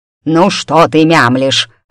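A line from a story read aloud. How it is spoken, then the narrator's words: Barked. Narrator (Russian): рявкнула она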